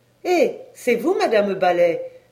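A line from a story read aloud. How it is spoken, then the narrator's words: Exclaimed. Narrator (French): s'écria-t-elle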